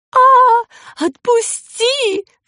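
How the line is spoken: Terrified howl. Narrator (Russian): взвыла с ужасом

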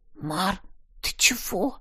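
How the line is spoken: Anxious whisper. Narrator (Russian): тревожным шепотом спросила Талья

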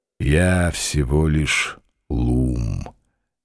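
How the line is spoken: Slow, old man. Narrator (Russian): медленно произнес старик

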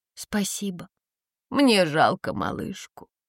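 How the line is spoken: Heavy sigh. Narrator (Russian): тяжело вздохнула тетя Венера

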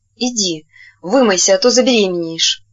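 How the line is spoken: Hoarse wheeze. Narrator (Russian): просипел Геннадий

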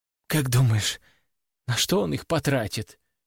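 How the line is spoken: Quiet question. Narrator (Russian): тихо спросила Валерия

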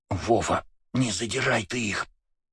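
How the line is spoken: Hissed into ear. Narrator (Russian): прошипела Света мне на ухо

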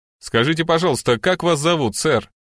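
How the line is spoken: Loud question. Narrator (Russian): громко спросил полицейский

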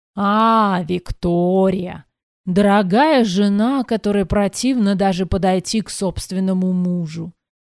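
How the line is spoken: Drunken drawl. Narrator (Russian): пьяно протянул Верд

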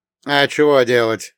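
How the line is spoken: Snorting. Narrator (Russian): хмыкнул Василий

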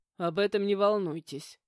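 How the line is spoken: Amused snort. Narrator (Russian): хмыкнул директор

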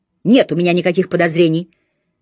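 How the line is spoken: Near-falsetto shout. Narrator (Russian): Почти фальцетом прокричала

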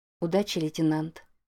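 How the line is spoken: Gentle. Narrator (Russian): мягко сказала она

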